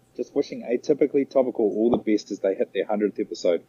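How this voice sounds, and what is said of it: New Zealand accent. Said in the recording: “Such a great accent”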